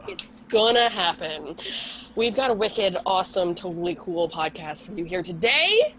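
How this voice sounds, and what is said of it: Husky low sick voice. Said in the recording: “I have a cold. So Candy sex phone operator voice. ... She has her FM voice tonight. Yes, the FM.”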